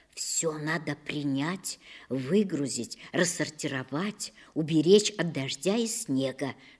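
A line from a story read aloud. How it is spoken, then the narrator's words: Whisper. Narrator (Russian): шептала мне мама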